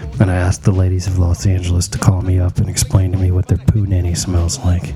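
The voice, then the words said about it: Sexy late-night radio voice. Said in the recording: “in my sexy radio voice.”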